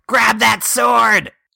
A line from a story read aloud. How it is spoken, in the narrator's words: I yell